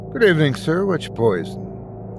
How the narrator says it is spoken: asked in a friendly tone of voice

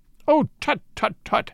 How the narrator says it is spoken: he cried

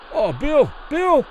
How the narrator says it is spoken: Kelly pleaded to the referee

